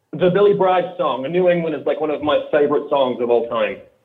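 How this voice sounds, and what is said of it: Australian accent. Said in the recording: “Do I detect an accent? Do I detect an accent, my friend? ... I'm from Australia originally.”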